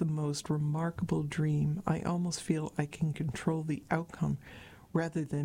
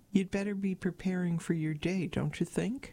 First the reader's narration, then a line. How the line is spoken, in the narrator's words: Andrew laughed